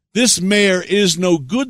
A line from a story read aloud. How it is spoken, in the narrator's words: they cried